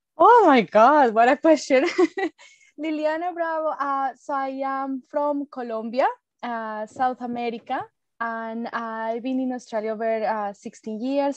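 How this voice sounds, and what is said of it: Beautiful foreign accent. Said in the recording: “your beautiful accent”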